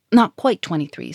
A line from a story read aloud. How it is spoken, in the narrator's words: said Germain hastily